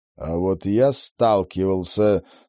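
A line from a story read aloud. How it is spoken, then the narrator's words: Through gritted teeth. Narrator (Russian): сквозь зубы процедил Роджер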